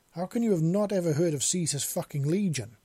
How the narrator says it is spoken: the man exclaimed loudly

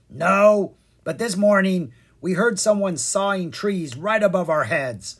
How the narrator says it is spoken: the first one grumbled

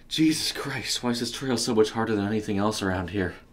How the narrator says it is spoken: he panted

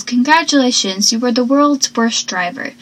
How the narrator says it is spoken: Pacey says

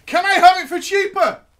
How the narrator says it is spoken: I yelled

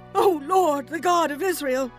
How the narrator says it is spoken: they cried

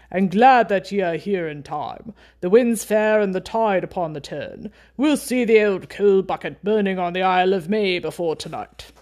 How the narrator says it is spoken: said in a fine, deep voice

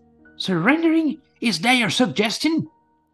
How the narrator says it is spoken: he shouted

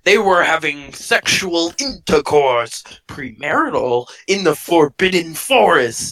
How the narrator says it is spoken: he yelled in a furious voice

